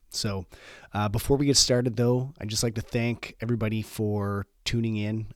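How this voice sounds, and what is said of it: Congested, slightly squeaky sick voice. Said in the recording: “my voice sounds a little off, it's because I'm still clogged up ... my voice is a little squeaky and everything's a little clogged up”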